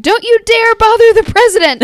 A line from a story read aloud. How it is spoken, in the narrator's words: Julia hollering